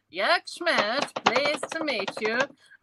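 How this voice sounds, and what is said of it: Borat impression. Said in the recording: “your impression was mint ... the Borat impersonation”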